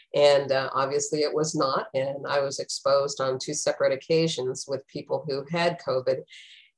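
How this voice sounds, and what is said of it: Sick-sounding voice. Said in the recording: “as you can probably tell by my voice, I actually finally came down with COVID”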